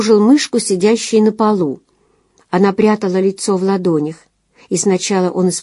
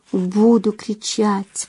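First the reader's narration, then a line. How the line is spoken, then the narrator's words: Whisper. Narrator (Russian): прошептала она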